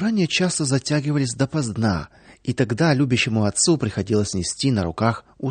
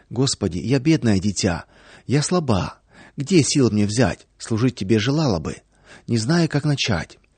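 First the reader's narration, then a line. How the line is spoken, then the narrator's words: Soft prayerful whisper. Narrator (Russian): Во время молитвы Наташа тихонечко шептала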